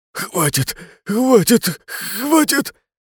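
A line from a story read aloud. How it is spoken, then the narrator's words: Desperate moaning. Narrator (Russian): Лишь стонал он, неистово желая, чтобы все это прекратилось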